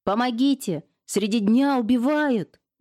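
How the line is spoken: Old woman wailing. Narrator (Russian): завопила бабка

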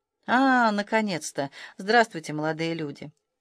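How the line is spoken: Grumbled. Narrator (Russian): Я буркнул

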